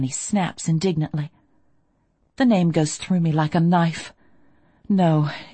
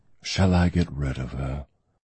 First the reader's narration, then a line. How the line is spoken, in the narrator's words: Derek murmurs